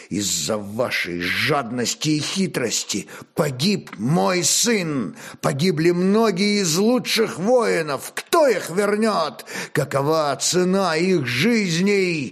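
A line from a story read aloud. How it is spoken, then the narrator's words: Growled. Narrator (Russian): рычал Нурман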